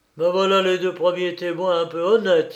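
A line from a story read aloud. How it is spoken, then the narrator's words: Exclaiming. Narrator (French): s'écria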